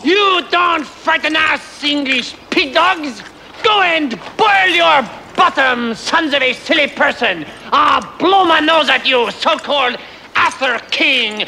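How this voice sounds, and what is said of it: Exaggerated outrageous French accent. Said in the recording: “I'm French. Why do you think I have this outrageous accent”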